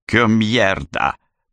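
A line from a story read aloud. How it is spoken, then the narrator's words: Growl. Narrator (Russian): прорычал он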